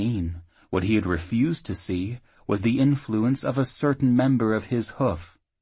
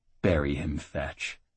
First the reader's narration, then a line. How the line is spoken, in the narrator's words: Jackal urged softly